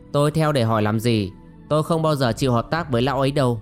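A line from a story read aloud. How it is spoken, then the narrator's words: Scornful thin smile. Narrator (Vietnamese): Yến Thất cười nhạt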